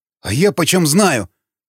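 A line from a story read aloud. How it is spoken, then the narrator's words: Trembling mutter. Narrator (Russian): дрожащим голосом пробормотал черновик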